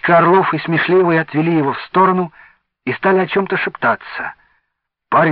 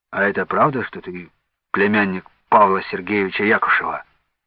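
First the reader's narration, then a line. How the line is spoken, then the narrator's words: Quiet question. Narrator (Russian): тихо спросил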